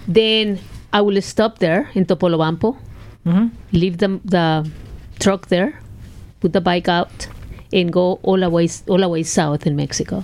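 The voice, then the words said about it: Non-native English accent. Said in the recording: “You need to get used to my accent”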